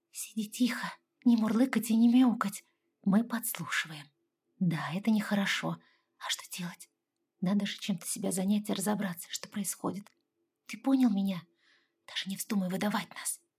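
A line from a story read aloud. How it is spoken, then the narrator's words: Quiet whisper. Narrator (Russian): Прошептала тихо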